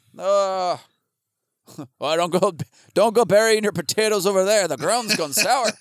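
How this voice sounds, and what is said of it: Bad accent, Pet Cemetery guy impression. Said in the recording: “That's the worst accent ... Did you just take the Pet Cemetery guy and throw him ... into ... a ... completely different area? ... Yeah, I read his lines with an idiot's voice.”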